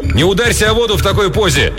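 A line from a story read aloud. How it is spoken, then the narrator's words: Shouting. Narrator (Russian): Рик прокричал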